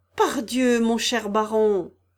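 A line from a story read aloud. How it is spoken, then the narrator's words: Woman exclaiming. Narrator (French): s'écria la maîtrise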